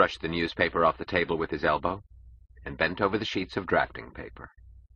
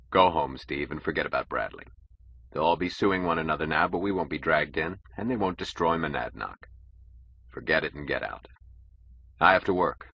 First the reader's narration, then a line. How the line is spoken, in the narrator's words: said, his voice normal again